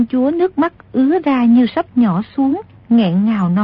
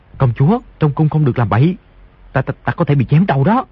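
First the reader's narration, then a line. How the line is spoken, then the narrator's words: Frightened, lowered voice. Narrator (Vietnamese): Di Tiểu Bảo hoảng sợ, tim đập thình thịch, hạ giọng nói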